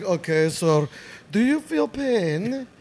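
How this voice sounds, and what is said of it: Imitated Armenian accent. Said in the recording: “I'm pretty sure she was Armenian. She had the accent and everything.”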